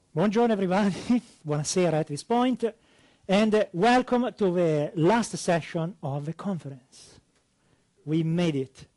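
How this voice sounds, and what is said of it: Italian accent speaking English. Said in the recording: “as you can hear from my accent, classic North America. No, yeah, I'm actually Italian”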